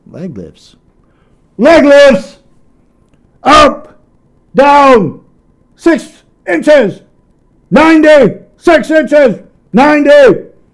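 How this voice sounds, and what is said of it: Strong, loud drill-command voice. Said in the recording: “my voice was very strong that day”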